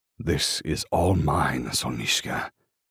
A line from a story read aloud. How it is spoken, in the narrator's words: he growls